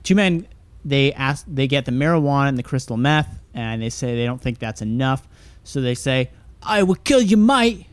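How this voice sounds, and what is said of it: Put-on Australian accent. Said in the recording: “I'll try and do my best Australian accent for the next part.”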